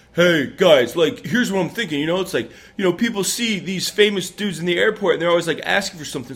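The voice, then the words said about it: Impression of a friend's voice. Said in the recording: “my best Ian impression”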